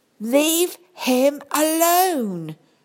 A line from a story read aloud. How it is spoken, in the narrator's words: cried Sophie